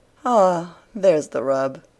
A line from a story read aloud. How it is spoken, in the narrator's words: sighed Anne